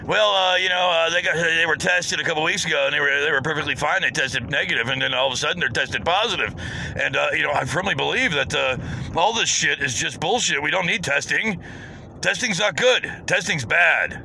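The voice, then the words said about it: Mocking impression of Trump. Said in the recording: “I'm just going to do my best, stupidity impersonation. I'm not very good at it.”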